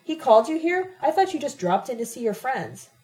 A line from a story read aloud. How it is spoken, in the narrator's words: Jose bellowed